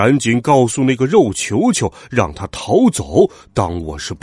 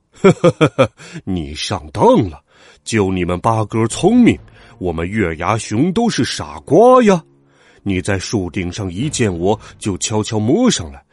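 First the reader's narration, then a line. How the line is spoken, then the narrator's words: Hearty laughter. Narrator (Chinese): 黑家伙哈哈大笑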